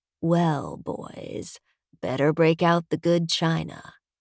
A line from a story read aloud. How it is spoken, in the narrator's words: rumbles